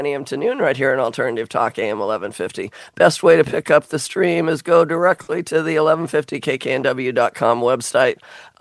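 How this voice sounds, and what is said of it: Worn-out, strained voice. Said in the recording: “I'm not as bad as I sound. I just wore out my voice.”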